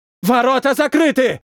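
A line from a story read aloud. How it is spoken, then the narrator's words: Shouting. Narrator (Russian): прокричал боец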